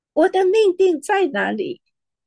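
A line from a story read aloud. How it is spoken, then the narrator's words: Crying out. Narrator (Chinese): 他向主呼喊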